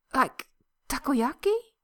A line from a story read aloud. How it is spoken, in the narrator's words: He asks eagerly